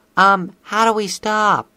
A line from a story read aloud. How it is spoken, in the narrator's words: Sweetie Belle cried out, barely loud enough for the others to hear